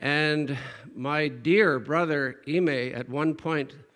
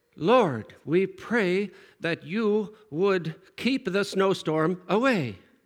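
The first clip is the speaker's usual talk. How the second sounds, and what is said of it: Imitation of a man praying. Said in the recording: “I don't do a very good imitation.”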